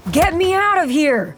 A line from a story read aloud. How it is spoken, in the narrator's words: He screams at the top of his lungs